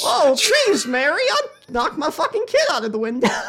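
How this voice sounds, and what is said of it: Imitates a Jimmy Stewart-style voice. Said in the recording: “a good Jimmy Stewart impression”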